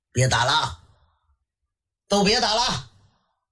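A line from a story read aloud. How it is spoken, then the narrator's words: Old man shouting. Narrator (Chinese): 老员外喊了一声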